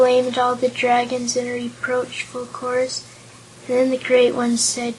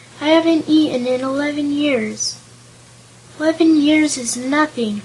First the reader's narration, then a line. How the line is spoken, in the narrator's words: remarked another dragon, sleepily